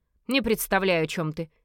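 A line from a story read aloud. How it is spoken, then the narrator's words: Sharp reply. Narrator (Russian): резко ответил он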